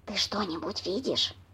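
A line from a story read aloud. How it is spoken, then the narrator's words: Whispered question. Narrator (Russian): Шепотом спросил хозяин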